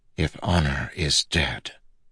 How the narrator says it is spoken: Kaladin whispered

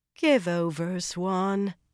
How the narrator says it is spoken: Egwene said wearily

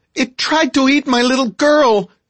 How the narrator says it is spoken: screamed the mother

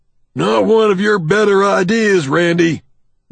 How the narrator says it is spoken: Doug shouts, almost contemptuously

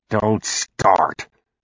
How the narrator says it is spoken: Dan was growling to her

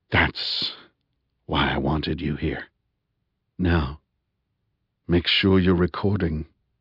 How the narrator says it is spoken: whispered softly in her ear

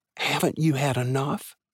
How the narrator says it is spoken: Carla whispered

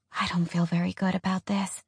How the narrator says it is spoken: Alex whispered

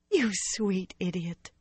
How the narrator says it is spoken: she laughed softly

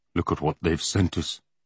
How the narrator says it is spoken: he muttered

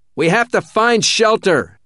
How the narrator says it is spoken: he shouted over the wind

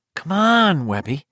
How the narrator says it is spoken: Chris Unwin said uneasily

